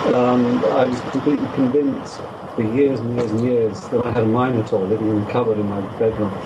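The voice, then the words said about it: Noticeable accent that sounds classy. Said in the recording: “if you could just get rid of the accent ... I like the accent. I think it makes our show sound more intellectual. ... It definitely adds a touch of class.”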